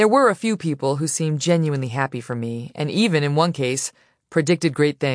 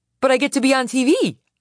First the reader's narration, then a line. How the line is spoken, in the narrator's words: exclaim